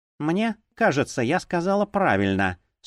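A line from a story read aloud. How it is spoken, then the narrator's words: Calm reply. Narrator (Russian): спокойно ответила Нонна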